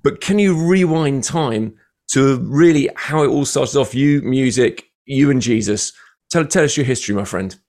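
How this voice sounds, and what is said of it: British accent. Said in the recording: “everything sounds way more important in a British accent.”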